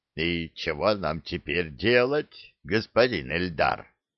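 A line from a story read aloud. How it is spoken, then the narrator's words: Hoarse question. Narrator (Russian): хрипло спросил Клык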